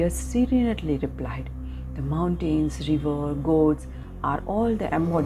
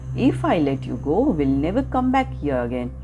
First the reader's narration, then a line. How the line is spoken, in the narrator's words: The hunter laughed out loud and said